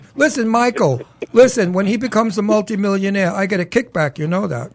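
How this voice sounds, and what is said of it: Brooklyn accent. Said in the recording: “You bet your ass I'm from Brooklyn. Can't you hear the accent? ... I hear the accent.”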